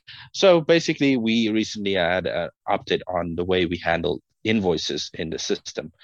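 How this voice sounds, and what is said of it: South African accent. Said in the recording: “you are based in South Africa, um, in case our listeners are wondering where the accent's from”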